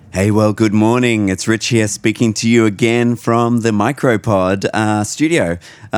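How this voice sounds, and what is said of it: Slightly croaky voice. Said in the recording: “You can hear my voice is a little bit croaky.”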